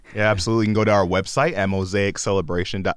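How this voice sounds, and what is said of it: Polished radio announcer voice. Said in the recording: “My radio voice came on here.”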